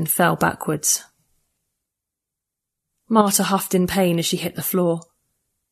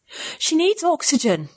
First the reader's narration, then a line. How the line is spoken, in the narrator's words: I gasped again over my shoulder